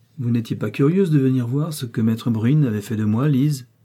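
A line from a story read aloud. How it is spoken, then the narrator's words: Cold, slightly sarcastic. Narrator (French): dit-il d'un ton froid, légèrement sarcastique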